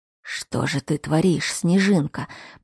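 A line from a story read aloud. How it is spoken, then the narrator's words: Murmur. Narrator (Russian): пробормотал Кайл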